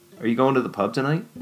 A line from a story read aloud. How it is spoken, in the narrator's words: Dylan asked Sean